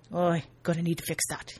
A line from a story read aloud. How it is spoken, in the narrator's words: he murmurs